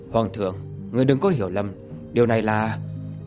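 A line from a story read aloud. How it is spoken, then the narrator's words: Composed. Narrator (Vietnamese): Thạch Kiếm định thần mà nói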